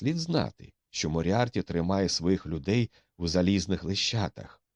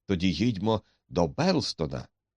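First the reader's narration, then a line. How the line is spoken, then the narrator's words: Exclamation. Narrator (Ukrainian): вигукнув Макдональд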